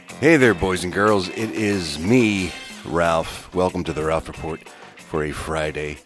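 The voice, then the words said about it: Sick, unwell-sounding voice. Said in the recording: “As you may be able to tell in my voice, I am not well.”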